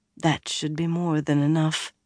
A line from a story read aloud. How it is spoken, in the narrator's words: she murmured